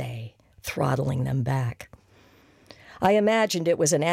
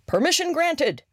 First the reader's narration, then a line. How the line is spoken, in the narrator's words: Bea would shout, like Admiral Halsey or some such other authority